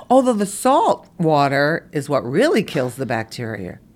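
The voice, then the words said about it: Brooklyn accent slipping out. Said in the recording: “Did I just say bacteria? ... That's my Brooklyn coming out.”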